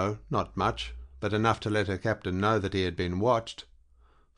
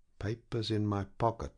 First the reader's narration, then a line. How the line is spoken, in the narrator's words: he muttered to himself